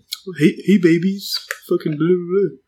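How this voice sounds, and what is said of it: Poor imitation of another person's voice. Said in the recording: “that's a terrible impression.”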